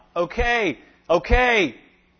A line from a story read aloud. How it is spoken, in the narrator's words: still agitated, still shouting out